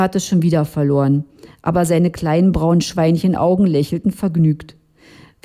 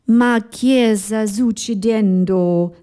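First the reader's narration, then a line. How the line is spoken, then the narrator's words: Shouted. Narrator (German): rief Gusto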